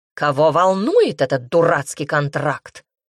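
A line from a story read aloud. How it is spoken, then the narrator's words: Barked. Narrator (Russian): рявкнул хозяин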